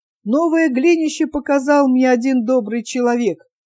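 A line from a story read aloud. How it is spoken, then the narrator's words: Plain. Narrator (Russian): говорит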